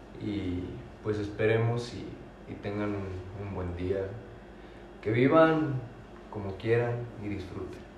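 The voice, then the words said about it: Radio announcer voice. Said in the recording (Spanish): “Despídete con voz de locutor.”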